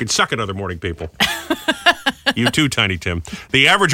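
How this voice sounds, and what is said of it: Usual voice. Nothing is said of it.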